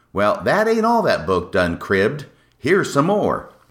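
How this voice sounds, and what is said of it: Put-on folksy accent. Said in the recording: “I'm really warming to this accent.”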